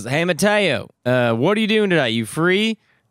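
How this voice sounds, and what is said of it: Imitates a Southern accent. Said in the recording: “He's got a real Southern accent.”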